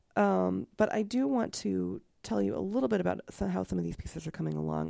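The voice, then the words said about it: Gravelly, slightly sick voice. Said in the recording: “I'm also a little bit sick. You can hear the graveliness in my voice.”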